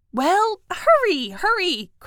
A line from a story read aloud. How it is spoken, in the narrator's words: cried Mink